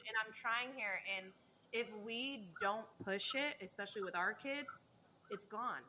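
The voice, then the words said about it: Portuguese-influenced English accent. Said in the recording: “you can hear in my accent that I have a big influence ... in the Portuguese language”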